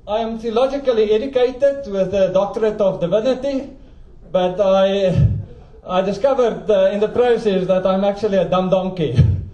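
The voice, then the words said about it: South African accent. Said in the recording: “As you can hear, I'm a South African... people cannot follow my accent”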